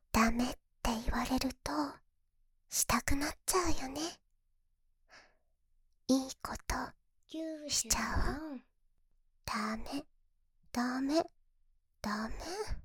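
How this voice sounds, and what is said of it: Sweet whispering voice. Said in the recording (Japanese): “甘い声でささやかれて”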